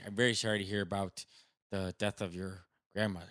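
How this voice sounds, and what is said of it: Put-on Southside Chicago Irish accent. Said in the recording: “He's got the Southside Irish Chicago accent.”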